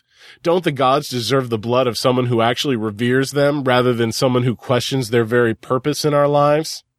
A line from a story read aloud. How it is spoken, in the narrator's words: Quatamok chuckled